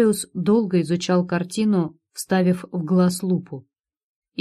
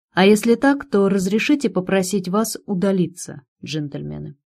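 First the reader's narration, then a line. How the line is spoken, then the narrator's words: Plain. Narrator (Russian): ответила Лиза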